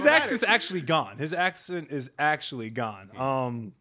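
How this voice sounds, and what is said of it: Usual voice. Nothing is said of it.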